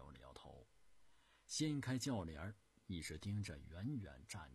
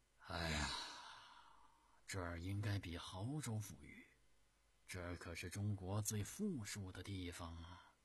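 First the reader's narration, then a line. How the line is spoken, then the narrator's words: Sighing. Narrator (Chinese): 朱元璋叹息声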